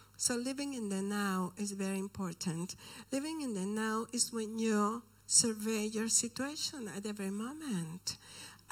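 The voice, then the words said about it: Speaks with a noticeable accent. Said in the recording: “I have an accent, so I'm sorry.”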